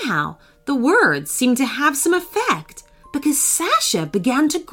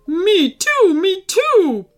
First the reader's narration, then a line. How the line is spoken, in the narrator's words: barked Phoebe urgently